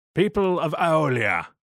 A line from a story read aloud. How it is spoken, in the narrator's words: bellowed the general